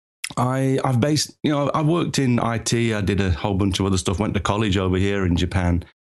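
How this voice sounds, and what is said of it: English accent. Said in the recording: “As you can tell from the accent, I'm originally from England”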